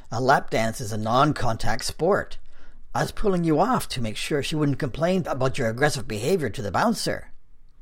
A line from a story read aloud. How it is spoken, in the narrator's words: Art countered testily